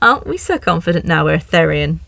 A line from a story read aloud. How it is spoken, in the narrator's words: The strange woman chuckled tenderly